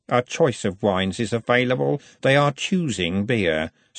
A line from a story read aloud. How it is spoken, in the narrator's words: said Robert coldly